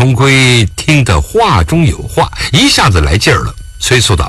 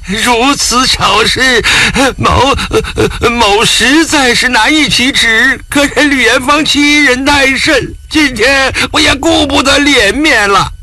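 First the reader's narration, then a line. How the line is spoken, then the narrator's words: Broken sobbing. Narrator (Chinese): 钱奎南却已经哭得泣不成声，抽抽搭搭的道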